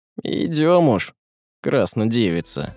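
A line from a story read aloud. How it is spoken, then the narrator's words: Sighing, then said. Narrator (Russian): Он вздохнул в третий раз и сказал Марьяше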